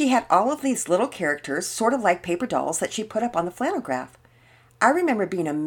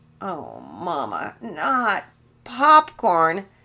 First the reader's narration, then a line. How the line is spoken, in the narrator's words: Penelope moaned